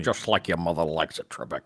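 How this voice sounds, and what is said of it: Poor imitation of another person's voice. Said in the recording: “a good Sean Connery ... that was a terrible Sean Connery ... your impression of that guy was spot on”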